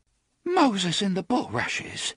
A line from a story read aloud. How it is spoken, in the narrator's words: she gasped